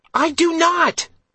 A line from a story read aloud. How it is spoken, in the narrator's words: Elena shrieked